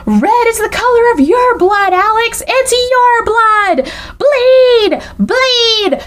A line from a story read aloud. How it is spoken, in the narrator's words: Anna is screaming at the top of her lungs